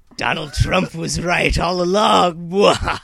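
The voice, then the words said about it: Imitates another person's voice. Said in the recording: “my Obama impersonation”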